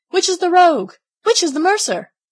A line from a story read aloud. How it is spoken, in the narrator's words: they cried out as they went